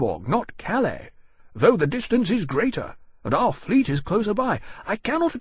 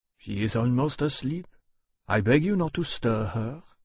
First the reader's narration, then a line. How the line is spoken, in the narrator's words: he said very softly